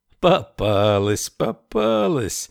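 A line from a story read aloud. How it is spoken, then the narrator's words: Cheerful singsong. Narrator (Russian): весело пропел Ричард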